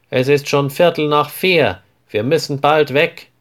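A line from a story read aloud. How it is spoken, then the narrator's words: Called loudly. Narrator (German): ruft er laut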